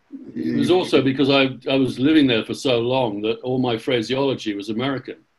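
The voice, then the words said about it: English accent. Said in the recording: “you have the English accent”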